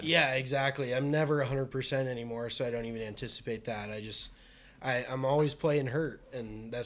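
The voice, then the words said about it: Worn-out, strained voice. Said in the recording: “as you can probably tell by my voice, I've been struggling”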